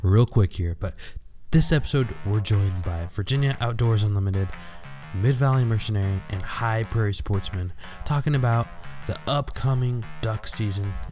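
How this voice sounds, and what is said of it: Sick, congested-sounding voice. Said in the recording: “Gotta excuse my voice here, guys. I'm suffering from a cold”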